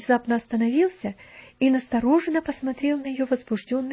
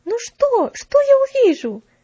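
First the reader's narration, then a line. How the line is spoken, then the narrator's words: Incautious shout. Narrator (Russian): закричала Мэри, забыв осторожность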